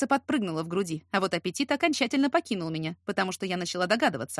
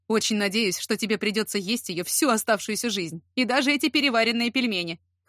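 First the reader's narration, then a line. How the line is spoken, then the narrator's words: Scoffing snort. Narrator (Russian): хмыкнул он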